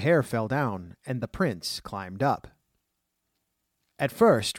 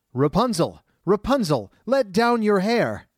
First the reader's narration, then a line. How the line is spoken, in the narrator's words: he … called out